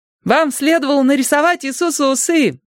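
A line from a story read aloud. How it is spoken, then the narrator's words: Shouted. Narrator (Russian): крикнул Майк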